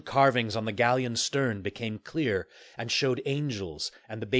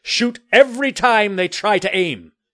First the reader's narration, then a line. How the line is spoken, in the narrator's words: Jameson yelled